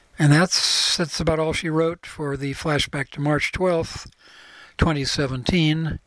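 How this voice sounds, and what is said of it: Increasingly hoarse voice. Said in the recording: “my hoarsening throat”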